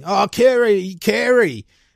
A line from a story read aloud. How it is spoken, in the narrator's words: He was screaming